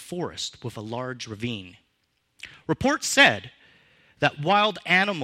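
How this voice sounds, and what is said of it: Usual voice. Nothing is said of it.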